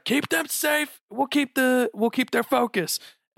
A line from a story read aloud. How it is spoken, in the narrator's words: I'm gonna yell out to Bubbles